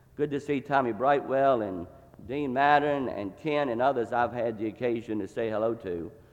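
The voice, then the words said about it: Virginia accent. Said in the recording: “this Virginia accent”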